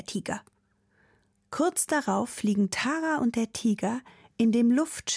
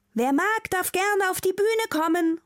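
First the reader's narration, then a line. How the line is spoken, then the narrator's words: Called out. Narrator (German): ruft die Schauspielerin, die den Tiger gespielt hat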